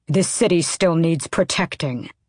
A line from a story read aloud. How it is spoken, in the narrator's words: Kaol snapped